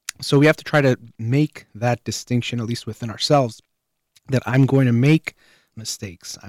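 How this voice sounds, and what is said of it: Voice starting to give out. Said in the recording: “I'm starting to lose my voice a little bit.”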